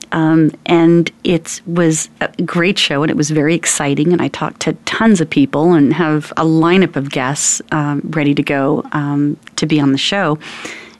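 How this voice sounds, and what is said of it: Slightly harsh, cracky voice. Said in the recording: “my voice is, a little harsh and a little cracky today ... my voice doesn't sound as beautiful”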